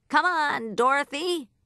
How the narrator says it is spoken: he shouted

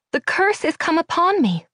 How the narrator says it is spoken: cried the Lady of Shalott

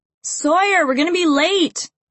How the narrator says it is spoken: I scream through a mouthful of crunch berries

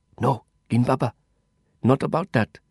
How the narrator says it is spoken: he rasped in a scratchy whisper

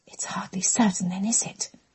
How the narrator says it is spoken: Catherine whispered to Amelia

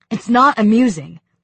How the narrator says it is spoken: Smiley snapped, his temper flaring

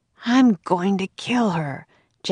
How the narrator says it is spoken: Jack muttered

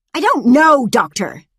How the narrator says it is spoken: she snapped

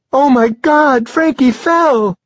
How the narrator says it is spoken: Deborah Ann cried

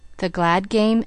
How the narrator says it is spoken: asked the man

